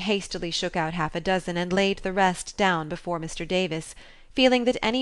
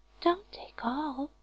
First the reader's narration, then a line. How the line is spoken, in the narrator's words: whispered her neighbor, a young lady of great presence of mind